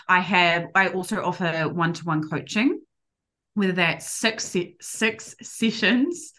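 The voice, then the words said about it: Strong noticeable accent. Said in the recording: “I hear my accent so bad now.”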